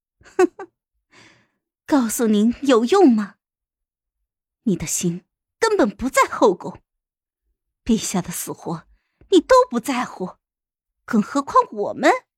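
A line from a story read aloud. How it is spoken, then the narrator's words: Cold sneering mockery. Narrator (Chinese): 皇后冷笑了一声，讥讽的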